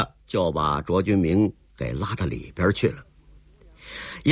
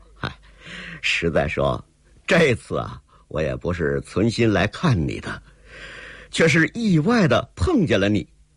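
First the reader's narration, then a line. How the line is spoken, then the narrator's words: With a smile. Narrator (Chinese): 卓君明笑了一笑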